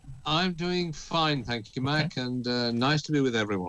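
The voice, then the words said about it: British accent. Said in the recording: “anyone with a British accent just sounds classy ... our UK correspondent”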